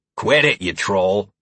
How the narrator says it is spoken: Heron grunted

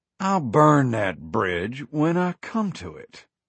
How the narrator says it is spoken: said coolly

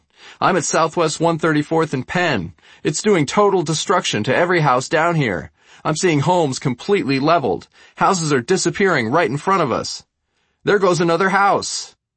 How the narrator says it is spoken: yelled Payne

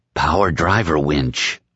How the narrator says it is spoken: his mind whispered

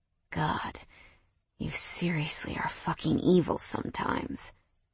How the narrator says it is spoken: Mason hissed, his square jaw clenched tight

